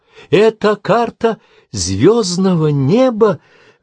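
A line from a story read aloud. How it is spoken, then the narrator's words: Exclaiming. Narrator (Russian): воскликнула она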